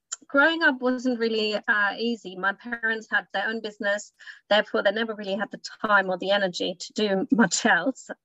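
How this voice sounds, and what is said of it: Slight German accent. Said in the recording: “there's a slight accent I'm hearing there. So I believe you grew up in Germany”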